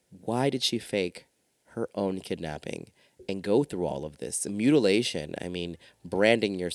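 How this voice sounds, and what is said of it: Usual voice. Nothing is said of it.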